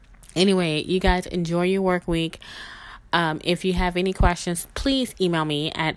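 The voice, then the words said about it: Rough, strained voice. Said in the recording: “my voice is jacked completely up, but that's okay because it's getting better”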